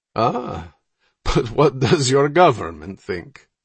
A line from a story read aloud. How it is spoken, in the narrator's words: The Russian asked with another jolly laugh